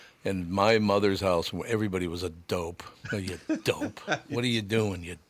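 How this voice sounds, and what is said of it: Usual voice. Nothing is said of it.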